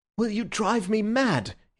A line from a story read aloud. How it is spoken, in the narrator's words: he cried